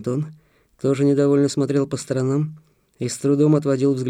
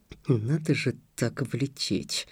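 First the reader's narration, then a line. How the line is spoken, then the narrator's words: Muttered. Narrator (Russian): буркнул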